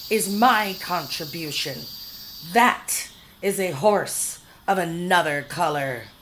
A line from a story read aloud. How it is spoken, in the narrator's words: was shrieking